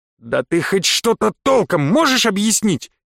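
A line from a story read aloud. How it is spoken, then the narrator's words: Barking. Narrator (Russian): рявкнул я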